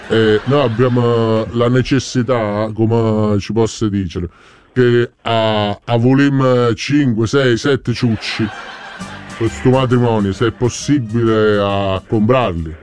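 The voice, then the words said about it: German-sounding accent in Italian. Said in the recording (Italian): “Ma se sente che è proprio sì tedesco, mo. ... So che sembrava tedesco”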